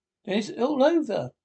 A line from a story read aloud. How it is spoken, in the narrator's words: sobbed the toad, crying into the sofa cushions